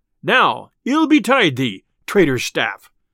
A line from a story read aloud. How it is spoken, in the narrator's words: cried Robin